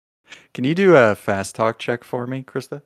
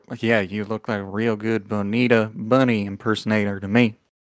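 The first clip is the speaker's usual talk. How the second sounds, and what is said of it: Put-on Southern accent. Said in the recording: “what was his accent? He was Southern.”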